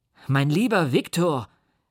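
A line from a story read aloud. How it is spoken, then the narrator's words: Calling out. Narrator (German): rief er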